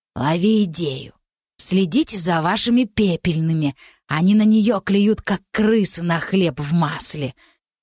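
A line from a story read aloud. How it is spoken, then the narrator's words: Venomous hoarse rasp. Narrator (Russian): ядовитым хрипом ответила Рики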